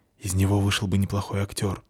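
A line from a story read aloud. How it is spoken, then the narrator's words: Whisper. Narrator (Russian): шепнула Фаль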